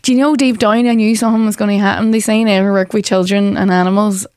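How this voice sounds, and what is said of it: Northern English accent. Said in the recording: “your northern accent”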